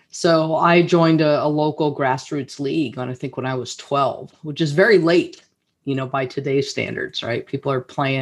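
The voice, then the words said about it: American accent. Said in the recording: “as you can tell by my accent, uh, I'm from North America, specifically the United States”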